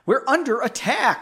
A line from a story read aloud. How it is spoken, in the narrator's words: Leonid shouted, his voice probably cracking just like the reader's